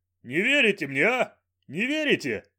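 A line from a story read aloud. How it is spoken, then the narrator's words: Bursting into laughter. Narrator (Russian): И расхохотался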